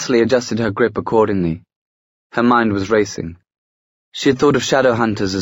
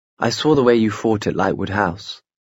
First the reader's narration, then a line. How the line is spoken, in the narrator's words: Gabriel Lightwood murmured